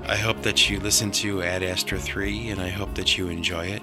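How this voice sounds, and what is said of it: Slightly raspy voice. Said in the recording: “my voice is getting a little raspy”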